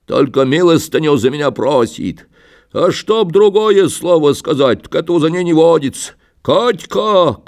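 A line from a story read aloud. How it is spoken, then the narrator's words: Shouted. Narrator (Russian): крикнул он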